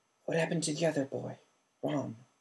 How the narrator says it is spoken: croaked Sirius

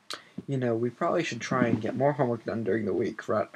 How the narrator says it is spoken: Harry muttered to Ron

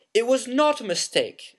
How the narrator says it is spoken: said Harry angrily

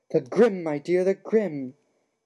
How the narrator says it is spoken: cried Professor Trelawney, who looked shocked that Harry didn't understand

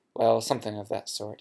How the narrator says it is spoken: he mumbled

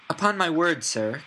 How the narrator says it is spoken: cried Elizabeth

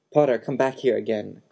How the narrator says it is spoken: Quirrell shouted

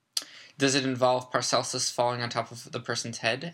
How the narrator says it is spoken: asked Harry

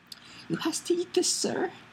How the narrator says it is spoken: squeaked the elf

